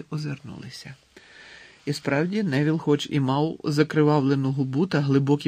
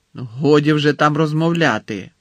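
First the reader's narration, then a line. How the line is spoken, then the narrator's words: Stern interruption. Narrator (Ukrainian): суворо урвала її професорка Спраут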